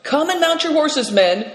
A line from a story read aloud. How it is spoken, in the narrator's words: cried Nidong